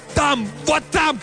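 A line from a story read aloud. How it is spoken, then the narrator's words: Shouting. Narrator (Russian): кричал Картер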